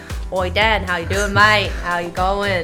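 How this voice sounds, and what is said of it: Put-on Australian accent. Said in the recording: “I wish I sounded Australian. Should I start Australian? ... That's very good.”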